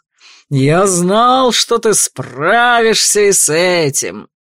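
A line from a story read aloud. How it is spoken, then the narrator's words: Growling with joy. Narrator (Russian): Рычаще радовался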